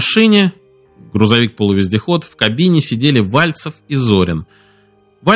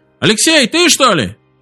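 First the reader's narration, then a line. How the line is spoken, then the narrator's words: Shout. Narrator (Russian): Голос Вальцева прокричал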